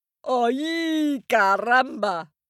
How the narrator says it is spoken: yelped the ram

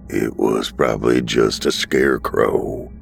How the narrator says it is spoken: Henry grunted

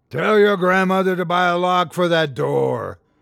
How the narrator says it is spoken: roared Mulloch, relishing the freedom of his true form

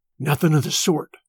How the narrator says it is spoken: Smoke whispered back

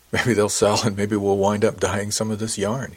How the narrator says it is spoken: he laughed

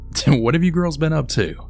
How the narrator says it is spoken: Becky's dad had then started to laugh and then said

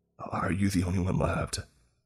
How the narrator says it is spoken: I whispered

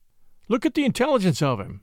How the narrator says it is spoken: Scott went on hastily

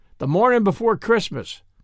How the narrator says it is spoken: said Baldy

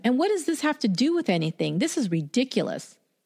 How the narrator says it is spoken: she snapped at them

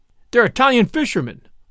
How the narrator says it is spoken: cried, the facts of the case breaking in upon me

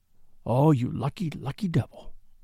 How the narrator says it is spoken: he whispered

